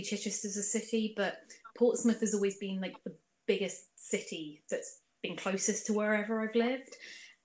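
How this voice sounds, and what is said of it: Well-spoken English accent, clear diction. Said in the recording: “your accent isn't very Pompey. You don't have that sort of farmerish Pompey twang ... You can sort of hear a few different locations in your accent. Well, very well spoken ... great diction the way it comes out”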